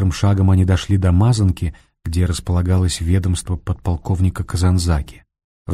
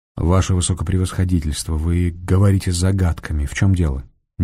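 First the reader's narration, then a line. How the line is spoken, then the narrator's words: Quiet question. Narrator (Russian): негромко спросил Фондорин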